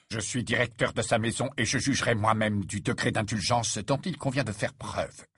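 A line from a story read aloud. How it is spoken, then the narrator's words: Curt retort. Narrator (French): répliqua sèchement Rogue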